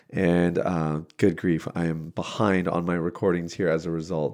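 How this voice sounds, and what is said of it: Sick, slightly off-sounding voice. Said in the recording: “my voice sounds a little bit funny, it is because I have been wildly sick ... my voice sounded even worse than this”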